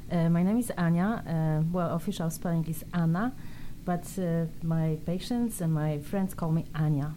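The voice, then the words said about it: Speaks with a noticeable accent. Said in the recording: “you have an accent too”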